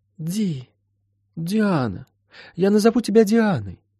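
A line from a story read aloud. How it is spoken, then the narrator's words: Sleepy mumble. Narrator (Russian): сонно пробормотала Молли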